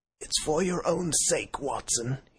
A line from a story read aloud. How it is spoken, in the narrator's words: he croaked